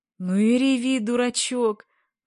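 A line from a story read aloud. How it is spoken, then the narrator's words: Softened, affectionate. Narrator (Russian): размягченный, ласково отозвался Гремушин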